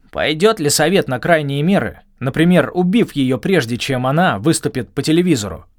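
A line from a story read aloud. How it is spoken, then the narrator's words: Growling. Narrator (Russian): прорычал Клифф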